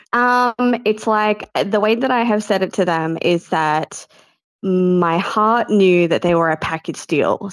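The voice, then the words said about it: Australian accent. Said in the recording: “What do they say in Australia? ... We love the accent.”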